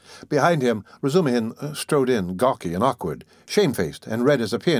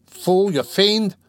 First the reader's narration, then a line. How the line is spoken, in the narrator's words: he roared